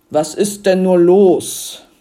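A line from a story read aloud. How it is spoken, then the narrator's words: Roaring from the front. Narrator (German): brüllte es von vorn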